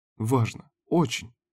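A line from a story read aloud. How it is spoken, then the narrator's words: Timid babble. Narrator (Russian): пролепетала Карин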